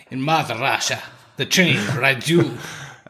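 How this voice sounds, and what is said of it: Attempted Russian accent, sounds Australian. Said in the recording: “your Australian accent”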